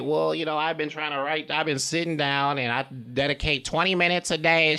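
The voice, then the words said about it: Silly put-on weird voice. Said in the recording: “If you just talk in a weird voice ... if you say it in that voice, it's making you sound like”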